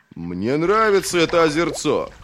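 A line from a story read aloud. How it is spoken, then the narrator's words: Chuckling. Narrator (Russian): хохотнул Девятипалый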